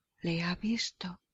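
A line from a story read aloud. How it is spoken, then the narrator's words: Young nun's trembling whisper. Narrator (Spanish): susurró la monja joven estremecida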